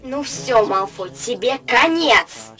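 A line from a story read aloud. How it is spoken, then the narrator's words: Two voices roaring together. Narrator (Russian): взревели Гарри и Рон одновременно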